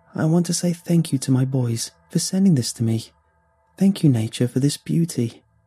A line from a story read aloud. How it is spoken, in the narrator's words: said Clara calmly